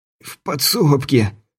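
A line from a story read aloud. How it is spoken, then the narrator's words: Hoarse rasp. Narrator (Russian): прохрипел Стюарт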